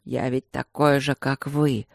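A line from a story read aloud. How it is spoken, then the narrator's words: Wheezing. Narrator (Russian): Просипел Люк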